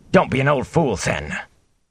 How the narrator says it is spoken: Master Alvir blinked as if taken by surprise, then snapped

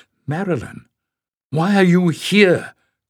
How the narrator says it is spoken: cried Sean

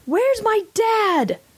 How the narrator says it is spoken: I screamed in his face

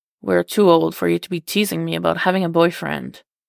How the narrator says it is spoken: he grumbles

